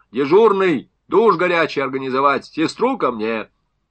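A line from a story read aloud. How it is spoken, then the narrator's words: Shouted. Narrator (Russian): еще с порога крикнул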